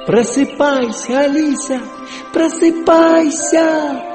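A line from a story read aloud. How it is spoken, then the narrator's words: Shout. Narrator (Russian): крикнула она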